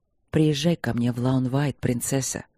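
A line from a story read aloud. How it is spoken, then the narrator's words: Soft request. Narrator (Russian): мягко попросил он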